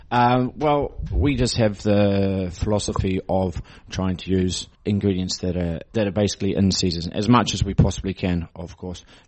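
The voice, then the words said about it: New Zealand accent. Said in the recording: “your accent is from New Zealand? You're not the Irish.”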